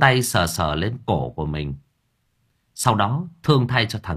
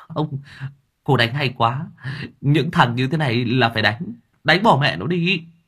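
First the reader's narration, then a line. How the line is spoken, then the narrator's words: Startled stammering. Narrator (Vietnamese): Hai anh này giật mình lắp bắp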